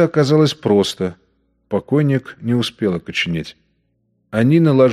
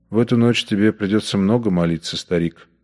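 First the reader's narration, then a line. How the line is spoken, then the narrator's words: Grim voice. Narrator (Russian): мрачно проговорил Бухер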